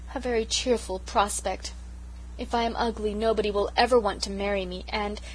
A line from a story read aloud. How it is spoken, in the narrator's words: poor Sarah sighed